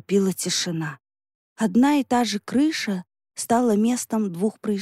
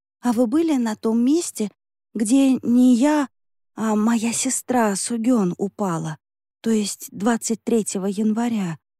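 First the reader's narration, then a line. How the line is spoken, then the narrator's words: Trembling question. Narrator (Russian): дрожащим голосом спросила Юнён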